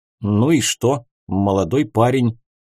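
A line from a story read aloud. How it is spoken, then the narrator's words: Puzzled muttering. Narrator (Russian): с недоумением пробормотал Райсон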